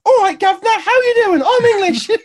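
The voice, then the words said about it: Exaggerated bad English accent. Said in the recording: “the worst English accent in the world. She might as well have just gone”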